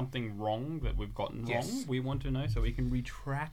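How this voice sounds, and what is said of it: Usual voice. Nothing is said of it.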